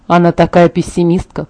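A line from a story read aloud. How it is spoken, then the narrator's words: Muttered under breath. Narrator (Russian): пробормотал Эммет себе под нос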